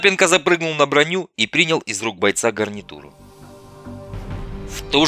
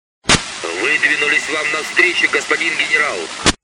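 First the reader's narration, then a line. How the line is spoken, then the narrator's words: Plain. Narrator (Russian): Ответил командир танкистов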